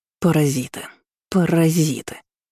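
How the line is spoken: Man muttering under breath. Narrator (Russian): бормотал мужичок себе под нос

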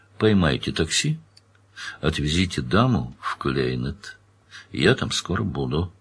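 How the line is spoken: Quiet instruction. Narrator (Russian): Данил тихо распорядился

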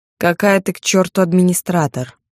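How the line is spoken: Displeased grumble. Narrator (Russian): буркнул он недовольно

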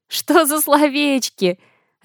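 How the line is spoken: Laughing, mimicking a teacher. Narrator (Russian): Рассмеялась, копируя манеры нашего преподавателя английской словесности

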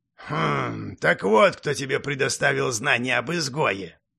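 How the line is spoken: Knowing grunt. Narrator (Russian): понятливо хмыкнул Варух

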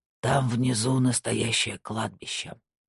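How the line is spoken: Whispered. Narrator (Russian): наконец прошептал Кнут

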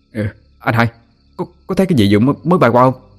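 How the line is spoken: Stammering. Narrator (Vietnamese): Nó lắp bắp nói

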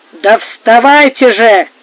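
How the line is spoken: Shouting. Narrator (Russian): кричал сторож

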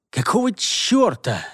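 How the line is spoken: Angry, displeased hiss. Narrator (Russian): рассерженно и недовольно прошипел Герстон

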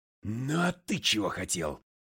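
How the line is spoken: Roar. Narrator (Russian): взревел я

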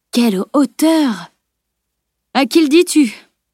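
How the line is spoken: Exclaiming. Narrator (French): s'exclama Salim

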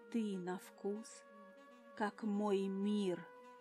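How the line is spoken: Velvety husky voice. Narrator (Russian): Голос скатился до бархатной хрипотцы

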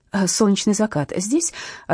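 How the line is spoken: Uncertain question. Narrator (Russian): осведомилась я неуверенно

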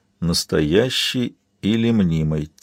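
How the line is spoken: Quiet repeating. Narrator (Russian): тихо повторил Габриэл

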